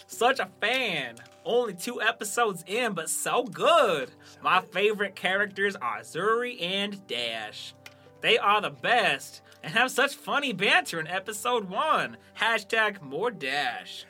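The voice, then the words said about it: Put-on Southern accent. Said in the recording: “That was my Western Southern.”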